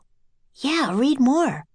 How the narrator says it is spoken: whispered Annie

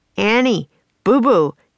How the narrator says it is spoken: shouted

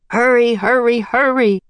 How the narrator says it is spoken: Leonardo shouted

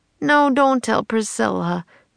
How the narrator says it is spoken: moaned Jack

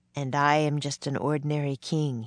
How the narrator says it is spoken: said softly

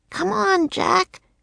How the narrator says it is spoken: she croaked

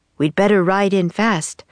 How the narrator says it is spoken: said Boca

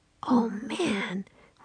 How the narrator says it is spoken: whispered Jack

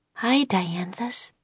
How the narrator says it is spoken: she whispered

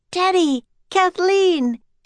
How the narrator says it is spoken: Annie shouted

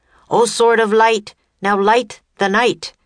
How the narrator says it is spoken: Teddy called out again

